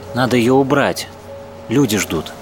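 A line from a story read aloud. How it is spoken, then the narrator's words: Plain. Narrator (Russian): сказала Даша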